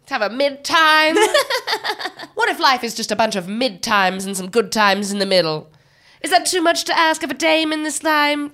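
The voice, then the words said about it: Put-on old Hollywood transatlantic accent. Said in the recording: “Old Hollywood accents up there with British in levels of fun ... It's this transatlantic ... That old Hollywood, like, kind of a little bit British, but not quite American”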